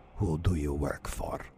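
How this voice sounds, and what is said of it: Put-on Russian accent. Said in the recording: “That's a terrible Russian accent. ... Yeah, a little better.”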